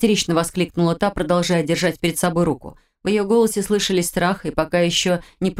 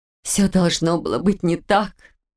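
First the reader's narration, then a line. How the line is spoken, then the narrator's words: Sudden moan with quiet sob. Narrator (Russian): неожиданно простонала она, тихо всхлипнув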